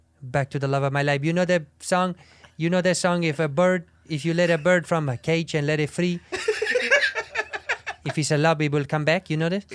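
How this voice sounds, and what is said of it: Sincere, doughy character voice with accent. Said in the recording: “The accent's terrible. Yeah. Is the accent really, really bad? ... there's something that's sincere great. And doughy about it.”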